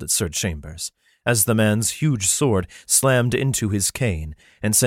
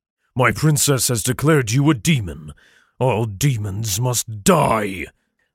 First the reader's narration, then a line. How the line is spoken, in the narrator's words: the lion roared